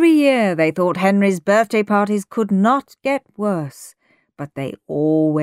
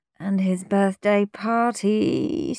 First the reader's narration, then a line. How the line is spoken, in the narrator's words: said Mum, groaning even louder